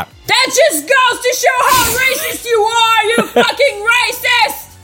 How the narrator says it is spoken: I yelled gloriously in a socialist voice

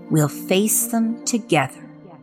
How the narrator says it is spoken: said quietly, in a voice that brooked no arguments

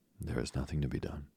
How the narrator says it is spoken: said the little woman, calmly

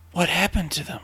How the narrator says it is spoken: Danny whispered

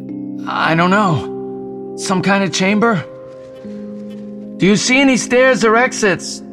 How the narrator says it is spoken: Jason yelled

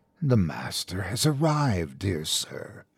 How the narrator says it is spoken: it whispered

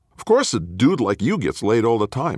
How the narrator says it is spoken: I snapped

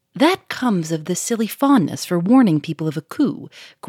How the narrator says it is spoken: growled Jean

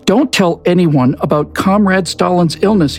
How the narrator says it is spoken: he shouted

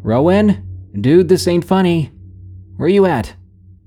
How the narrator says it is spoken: called out

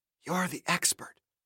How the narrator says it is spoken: Sarah whispered in an almost inaudible voice

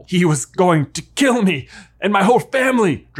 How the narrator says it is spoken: Draco shouts

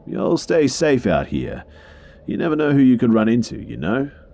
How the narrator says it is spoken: followed by a laugh

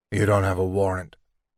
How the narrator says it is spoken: Dave mumbled

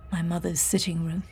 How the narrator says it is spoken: James murmured

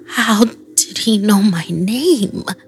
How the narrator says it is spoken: I mumbled

